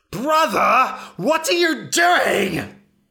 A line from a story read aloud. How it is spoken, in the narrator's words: shrieked